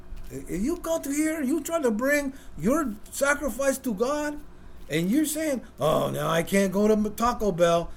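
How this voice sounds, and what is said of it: Imitated heavy Hispanic accent. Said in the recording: “He's got a really heavy accent, Hispanic accent.”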